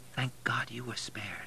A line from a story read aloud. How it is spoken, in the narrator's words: whisper